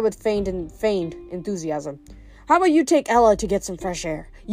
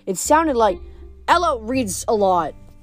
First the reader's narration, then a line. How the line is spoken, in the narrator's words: Frank blurted out